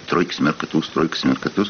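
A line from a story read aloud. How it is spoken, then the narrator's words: Muttering. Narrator (Russian): бормочет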